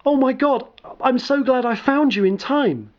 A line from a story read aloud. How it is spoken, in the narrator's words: She exclaimed